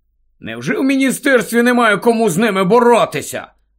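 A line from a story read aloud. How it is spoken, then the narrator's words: Asked angrily. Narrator (Ukrainian): сердито запитав Рон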